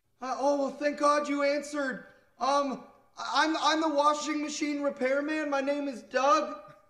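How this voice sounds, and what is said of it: Yelling into the phone. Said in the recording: “Why are you yelling?”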